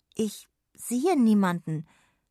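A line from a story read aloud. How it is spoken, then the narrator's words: Hesitant. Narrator (German): sagte Jonna zögernd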